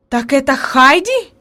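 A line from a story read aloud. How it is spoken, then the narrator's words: Exclamation. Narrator (Russian): воскликнула наконец она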